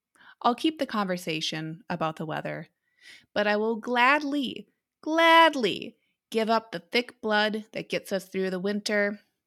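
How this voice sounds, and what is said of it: Minnesotan accent. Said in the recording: “former Minnesotan ... I will keep the accent.”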